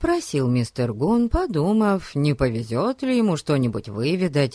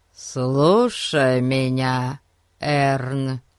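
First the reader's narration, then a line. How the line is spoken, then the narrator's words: Solemn voice. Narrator (Russian): торжественно произнес мистер Гун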